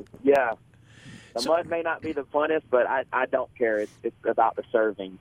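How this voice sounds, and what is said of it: Regional accent. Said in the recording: “I love the accent”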